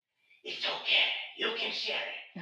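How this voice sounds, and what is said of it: Creepy character voice. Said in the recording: “Give me the voice. ... That came across so creepy.”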